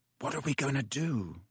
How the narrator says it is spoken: said Ron quietly in Harry's ear

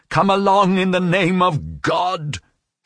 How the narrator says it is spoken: she shouted at him

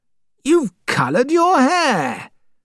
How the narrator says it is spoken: cried

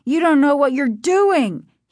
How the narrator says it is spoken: He pleaded

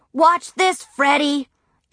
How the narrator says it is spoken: Philip Leroy yell

